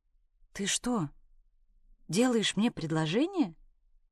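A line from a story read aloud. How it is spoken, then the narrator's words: Weak questioning voice. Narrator (Russian): Слабым голосом спросила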